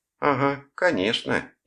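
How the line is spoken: Sarcastic drawl. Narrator (Russian): ехидно протянула она

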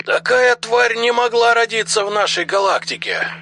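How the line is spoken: Loud exclamation. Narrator (Russian): Наконец громко воскликнул Дрил

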